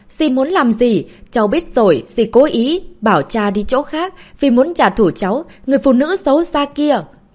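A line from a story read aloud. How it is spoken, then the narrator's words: Frightened screaming while running. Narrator (Vietnamese): Trong lòng cảm thấy run sợ, vừa chạy vừa la hét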